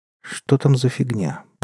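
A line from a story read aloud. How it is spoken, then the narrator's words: Muttering. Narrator (Russian): пробормотала Виктория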